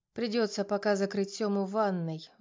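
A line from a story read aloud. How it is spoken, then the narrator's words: Sigh. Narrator (Russian): вздохнула я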